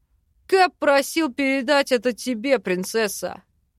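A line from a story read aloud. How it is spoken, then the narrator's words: Deep bass voice. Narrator (Russian): пробасил док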